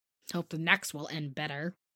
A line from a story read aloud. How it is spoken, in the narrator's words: muttered Joe, who found it very hard to see Meg absorbed in a stranger before her face